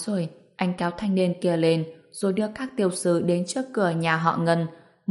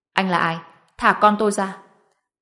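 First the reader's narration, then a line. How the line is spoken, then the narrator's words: Angry. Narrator (Vietnamese): Người đứng đầu tức giận nói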